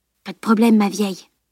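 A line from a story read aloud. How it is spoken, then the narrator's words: Grinning whisper. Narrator (French): chuchota-t-il en retour, un large sourire fendant son visage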